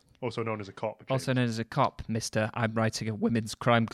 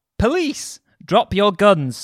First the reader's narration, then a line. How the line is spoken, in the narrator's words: A female cop had shouted